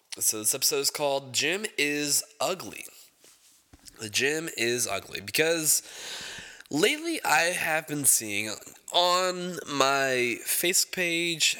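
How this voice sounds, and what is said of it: Congested, stuffed-up nasal voice. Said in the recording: “my nose is a little stuffed up right now ... if I sound a little congested”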